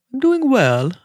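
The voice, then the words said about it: Bad put-on British accent. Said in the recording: “Like my British accent. ... It's bad. It's awful.”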